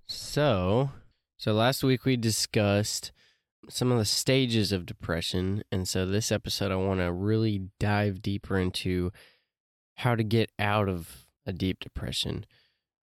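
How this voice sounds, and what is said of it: Slightly off, weird-sounding voice. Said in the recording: “my voice sounds a little weird today. I'm also dealing with some allergies.”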